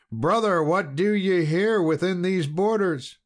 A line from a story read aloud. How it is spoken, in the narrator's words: he thought him his own brother, the Black Knight, and so cried aloud